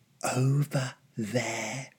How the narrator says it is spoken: my father whispered

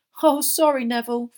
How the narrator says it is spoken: Fred shouted over all the laughter

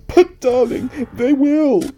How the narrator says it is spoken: sobbed Mrs

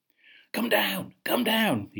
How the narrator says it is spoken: shouted

